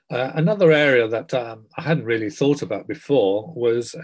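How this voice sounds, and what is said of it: Usual voice. Nothing is said of it.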